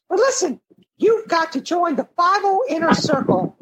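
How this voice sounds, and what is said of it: High-pitched character voice. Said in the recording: “Some random guy named Mickey with a high voice.”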